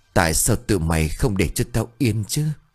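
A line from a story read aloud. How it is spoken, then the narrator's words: Hissing through clenched anger. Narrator (Vietnamese): Cô siết chặt bàn tay của mình lại rồi rít giọng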